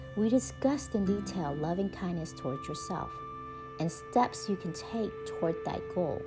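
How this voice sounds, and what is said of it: Texas accent. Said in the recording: “That's just my Texas accent”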